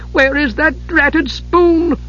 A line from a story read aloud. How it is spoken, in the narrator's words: cried in frustration